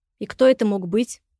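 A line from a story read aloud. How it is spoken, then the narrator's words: Angry question. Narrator (Russian): зло спросил Илья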